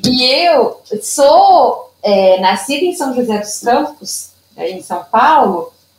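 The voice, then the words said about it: Brazilian Minas Gerais accent. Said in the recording (Portuguese): “meu sotaque ... eu sou mineira ... o meu sotaque é daqui, né, dessa região aqui”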